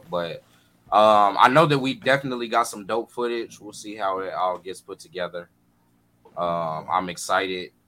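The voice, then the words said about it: Tired, unexcited voice. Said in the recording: “I probably don't sound like it though... I'm literally just tired”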